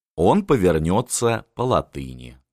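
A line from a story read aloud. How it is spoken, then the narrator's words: Calm. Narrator (Russian): спокойно произнес Жубе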